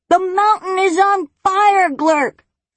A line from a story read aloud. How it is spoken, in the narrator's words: Firion roared